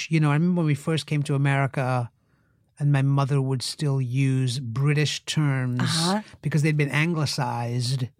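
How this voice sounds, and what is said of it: Interesting mixed foreign accent. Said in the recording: “you have such an interesting accent”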